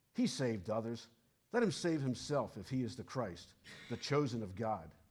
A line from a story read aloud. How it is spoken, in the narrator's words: the rulers with them sneered, saying